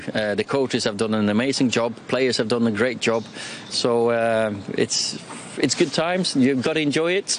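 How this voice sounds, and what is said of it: Norwegian accent with a northern English touch. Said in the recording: “He's got like a fast show manager accent, hasn't he? ... Norwegian with a touch of Oasis”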